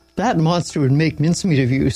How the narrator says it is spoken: Saul said

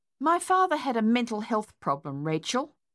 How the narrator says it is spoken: Madeline snapped

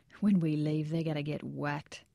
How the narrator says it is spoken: Ramirez smiled while saying under his breath

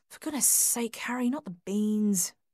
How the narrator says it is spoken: muttered under her breath

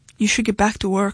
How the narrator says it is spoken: she said flatly

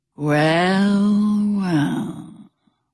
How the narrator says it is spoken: he growled

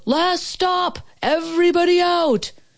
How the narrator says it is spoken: Somebody yelled

